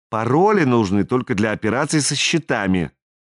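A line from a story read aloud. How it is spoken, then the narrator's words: Snorting. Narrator (Russian): Бьярни фыркнул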